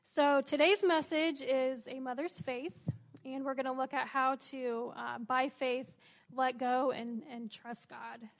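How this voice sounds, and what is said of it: Strained, fading hoarse voice. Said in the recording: “my voice is kind of going out here”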